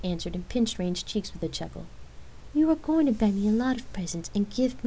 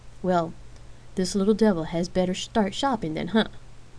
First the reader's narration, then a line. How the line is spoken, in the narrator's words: Rain asked, laughing